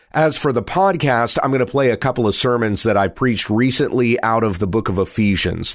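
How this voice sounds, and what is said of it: Congested, strained voice. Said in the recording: “I'm a little congested, and it's difficult for me to hold on to my voice”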